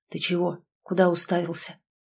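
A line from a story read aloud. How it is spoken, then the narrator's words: Quiet question. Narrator (Russian): спросил тихо Лок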